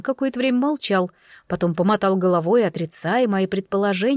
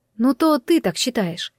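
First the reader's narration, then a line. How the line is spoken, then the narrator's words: Quiet remark. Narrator (Russian): тихо заметила я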